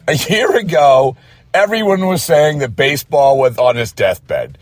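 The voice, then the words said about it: Hoarse voice. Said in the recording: “My voice is hoarse from screaming it from the mountaintops.”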